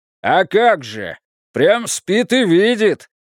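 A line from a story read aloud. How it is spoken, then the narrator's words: Rude barked retort. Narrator (Russian): грубо рявкнул в ответ Иона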